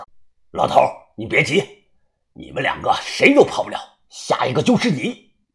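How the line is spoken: Cold voice. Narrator (Chinese): 国字脸冷声的说道

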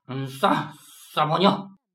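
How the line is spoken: Mumbling. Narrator (Chinese): 阿宝嘴里嘟囔着

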